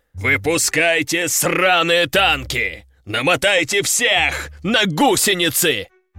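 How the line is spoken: General's furious roar. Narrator (Russian): взревел генерал

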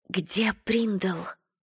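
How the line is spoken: Whisper. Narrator (Russian): прошептала

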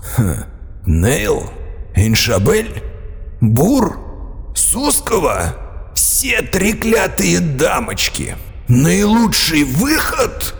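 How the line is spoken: Venomous hiss. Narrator (Russian): прошипел Годвин ядовитым тоном

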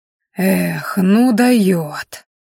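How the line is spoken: Breathy exhale. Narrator (Russian): выдохнул оборотень

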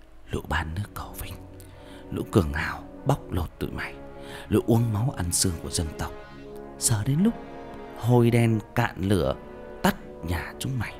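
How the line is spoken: Whisper in ear. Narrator (Vietnamese): thì thầm vào tai

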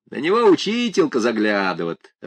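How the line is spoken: Laughing. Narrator (Russian): рассмеялся Василий

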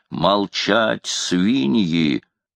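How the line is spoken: Menacing shout. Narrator (Russian): крикнул он грозно

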